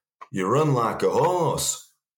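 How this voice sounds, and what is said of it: Imitation of Chippy's accent. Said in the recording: “That's Chippy's accent.”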